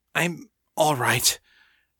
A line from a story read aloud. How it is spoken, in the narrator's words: gasped, coughing